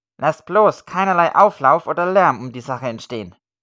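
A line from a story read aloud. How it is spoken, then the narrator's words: Sharp. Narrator (German): sagte scharf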